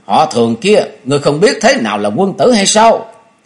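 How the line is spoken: Angry loud shout. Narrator (Vietnamese): Ngọc Đỉnh phu nhân tức giận thét lớn

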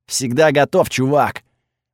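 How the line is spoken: Booming voice in head. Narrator (Russian): прогудел его голос у меня в голове

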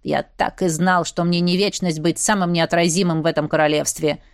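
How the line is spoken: Smirking snort. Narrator (Russian): хмыкнул Седрик

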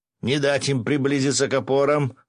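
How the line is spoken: Yelling. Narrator (Russian): заорал он

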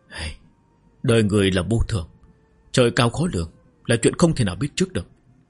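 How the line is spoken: Stunned, sorrowful sigh. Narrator (Vietnamese): Tiêu Ung Linh lập tức sững sờ, sắc mặt cũng có chút bị ai thở dài nói

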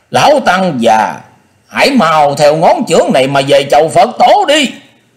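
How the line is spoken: Shouting at opponent. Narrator (Vietnamese): Đệ nhị điện Minh Dương thét vào mặt của địch thủ

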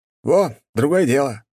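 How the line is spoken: Exclaiming. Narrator (Russian): воскликнул Николай

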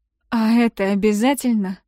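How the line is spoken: Hoarse, strained. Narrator (Russian): хрипло выдавливаю

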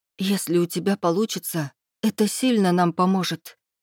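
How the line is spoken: Surprised breathy. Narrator (Russian): выдохнула с удивлением

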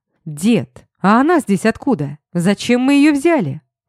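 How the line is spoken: Roaring. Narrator (Russian): взревел я

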